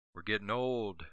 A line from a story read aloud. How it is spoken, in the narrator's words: Macy muttered